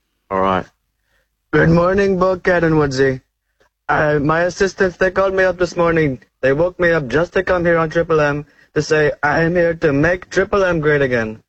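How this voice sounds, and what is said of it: Imitates another person's voice, Indian accent. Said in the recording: “Is that an Indian Trump? ... It's an Indian Trump. ... Oh, that's fantastic. ... That is so good”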